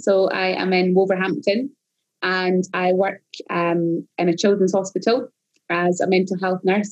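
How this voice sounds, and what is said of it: Scottish accent. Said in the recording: “you're Scottish ... unlike my accent”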